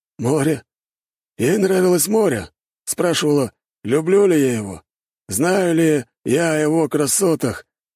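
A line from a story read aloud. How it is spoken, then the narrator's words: Uncertain, strained answer. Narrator (Russian): неуверенно отвечал тот, напрягая все свои извилины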